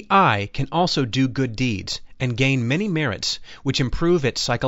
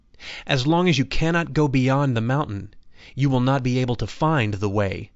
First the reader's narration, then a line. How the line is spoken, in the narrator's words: replied the master